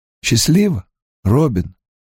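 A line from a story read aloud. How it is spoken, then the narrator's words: Hoarse. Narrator (Russian): хрипло выговорил он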